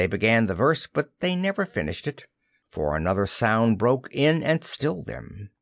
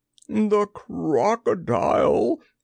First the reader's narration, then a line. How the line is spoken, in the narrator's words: he gasped